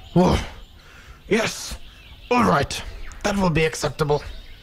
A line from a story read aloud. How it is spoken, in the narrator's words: said Papa Kay in a not so growly voice